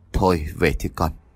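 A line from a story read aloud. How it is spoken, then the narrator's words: Resigned sigh, old man. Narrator (Vietnamese): ông Hưng thở dài bất đắc dĩ, ông nói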